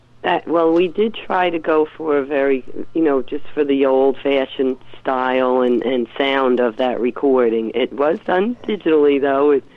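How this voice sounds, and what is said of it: Congested, sick-sounding voice. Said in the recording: “Excuse my voice, everyone, too. I'm fighting a head cold here”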